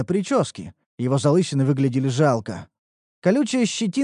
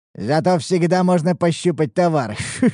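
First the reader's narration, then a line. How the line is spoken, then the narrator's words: Nasty laughter. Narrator (Russian): Засмеялся собеседник мерзким смехом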